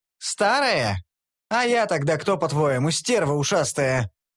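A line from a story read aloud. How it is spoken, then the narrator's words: Menacing female bark. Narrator (Russian): Грозно рявкнула давняя знакомая Танши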